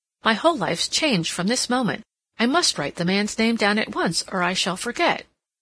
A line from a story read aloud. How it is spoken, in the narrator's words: Cassandra exclaimed